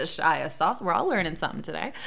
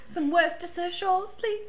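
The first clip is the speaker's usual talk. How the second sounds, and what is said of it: Put-on British accent. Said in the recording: “you can say it with a British accent”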